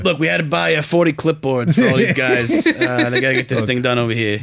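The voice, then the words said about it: Imitating Futurama construction worker voice. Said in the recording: “I can't do a Boston accent, so I'm just doing like the guy from Futurama who's the construction worker.”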